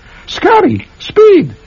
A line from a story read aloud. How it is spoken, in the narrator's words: cried the beautiful girl